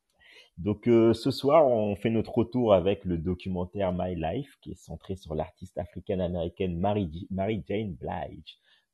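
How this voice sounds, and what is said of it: Strong accent. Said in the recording (French): “je le dis avec mon accent claqué, désolé, vous allez devoir le supporter toute l'année”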